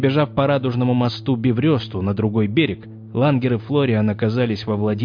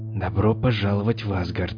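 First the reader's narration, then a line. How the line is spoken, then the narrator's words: Whisper. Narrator (Russian): прошептал Лангер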